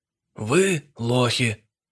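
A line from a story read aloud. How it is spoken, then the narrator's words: Tired, without malice. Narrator (Russian): Устало, беззлобно начал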